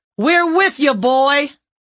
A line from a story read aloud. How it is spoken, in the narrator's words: Someone yelled